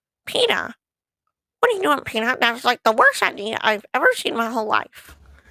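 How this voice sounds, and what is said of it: Lois Griffin impression. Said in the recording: “I knew Lewis Griffin. I'm still kind of practicing her just a little bit, but I'm kind of got her accent down just a little bit ... that one I need to practice just a little bit”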